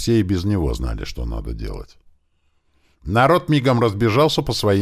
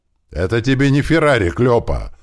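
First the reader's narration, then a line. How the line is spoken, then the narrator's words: Yelled in reply. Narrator (Russian): заорал в ответ машинист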